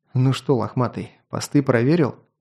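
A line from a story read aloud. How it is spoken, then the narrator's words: Quiet joking question. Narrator (Russian): В шутку я тихо спросил зверя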